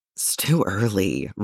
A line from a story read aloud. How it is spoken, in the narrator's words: Roy mutters